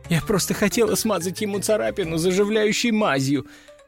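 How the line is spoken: Sobbing. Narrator (Russian): всхлипывала Катерина

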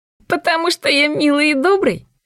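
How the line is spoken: Giggling. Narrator (Russian): он хихикнул

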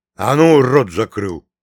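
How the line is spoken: Barking shout. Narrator (Russian): гаркнул Прокоп на своего сына

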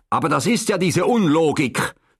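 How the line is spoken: Near shout. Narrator (German): schrie fast Herr Jakob

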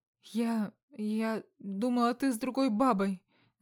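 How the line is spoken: Stammering. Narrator (Russian): Заикаясь

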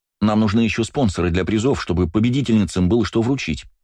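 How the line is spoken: Quick speech. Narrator (Russian): быстро проговорила Ирина

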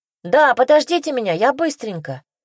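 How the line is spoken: Shouted. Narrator (Russian): крикнула Санька

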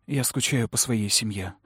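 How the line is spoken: Tearful mumble. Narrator (Russian): пробормотала я, чувствуя, как слезы наворачиваются на глаза

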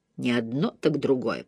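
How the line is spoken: Grumbling. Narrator (Russian): пробурчала она

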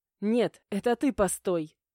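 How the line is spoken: Snapping while moving. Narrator (Russian): Не останавливаясь, огрызнулась я

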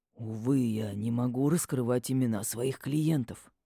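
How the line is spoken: Mysterious whisper. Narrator (Russian): загадочно зашептал тот, как будто нас даже тут могли услышать

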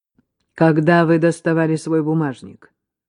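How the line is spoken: Icy tone. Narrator (Russian): ледяным тоном

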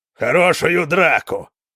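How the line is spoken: Roaring. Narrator (Russian): проревел Хара

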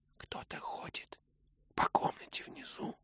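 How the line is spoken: Whisper. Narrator (Russian): шепнул Мэтчем

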